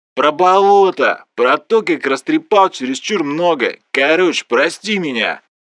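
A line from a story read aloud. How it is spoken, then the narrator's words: Booming voice. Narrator (Russian): Прогудел Влас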